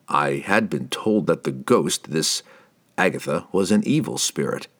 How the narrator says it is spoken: Driz told them calmly

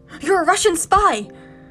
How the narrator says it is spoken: I blurted

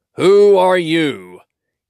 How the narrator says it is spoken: he called in a very loud voice

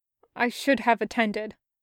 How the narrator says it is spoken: said stiffly

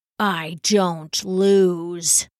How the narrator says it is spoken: the monk growled

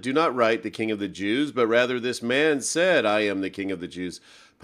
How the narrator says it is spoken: Pilate answered

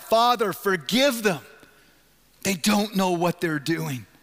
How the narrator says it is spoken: Jesus cries out

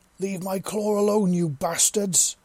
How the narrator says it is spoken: Gregory's voice roared across the battlefield

